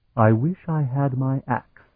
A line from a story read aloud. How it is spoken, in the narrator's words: he muttered